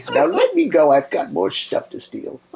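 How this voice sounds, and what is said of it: Gravelly old man voice. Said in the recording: “doing a voice ... My voice is so gravelly ... Old man”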